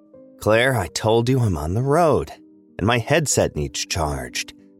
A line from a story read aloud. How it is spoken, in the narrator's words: he growled into his headset